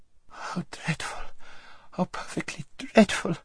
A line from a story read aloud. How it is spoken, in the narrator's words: whimpered Lazareline